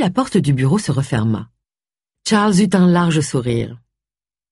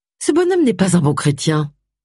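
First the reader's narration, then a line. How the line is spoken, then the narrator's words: Curt dry retort. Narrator (French): répliqua sèchement Agatha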